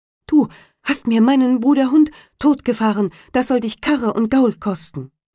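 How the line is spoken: Sparrow calling out. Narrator (German): rief der Sperling

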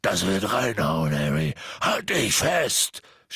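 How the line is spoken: Shouting. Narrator (German): schrie Hagrid

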